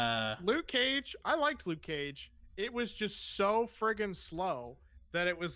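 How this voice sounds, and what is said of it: Usual voice. Nothing is said of it.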